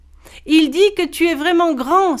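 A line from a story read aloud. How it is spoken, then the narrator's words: Exclamation. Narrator (French): s'exclama Boon Boy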